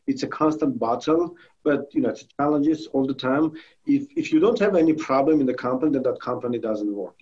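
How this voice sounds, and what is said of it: Armenian-accented English. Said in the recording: “I hear your accent ... I'm originally from Armenia.”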